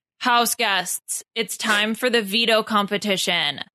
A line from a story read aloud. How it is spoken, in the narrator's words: shouted David